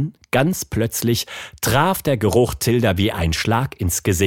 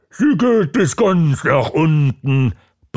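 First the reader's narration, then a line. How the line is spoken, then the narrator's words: Roaring back. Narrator (German): brüllte Bumm zurück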